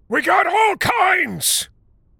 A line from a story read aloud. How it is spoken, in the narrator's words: shouted the white guy